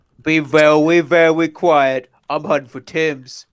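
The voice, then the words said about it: Elmer Fudd cartoon voice. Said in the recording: “Dr. Fudd? Elmer Fudd?”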